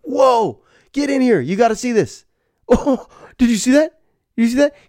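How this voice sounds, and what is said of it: Excited exaggerated self-impression. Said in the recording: “my impression of myself on the couch”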